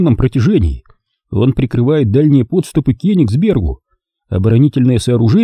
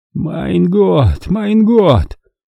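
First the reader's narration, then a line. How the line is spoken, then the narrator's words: Sighing. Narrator (Russian): вздохнул Готлиб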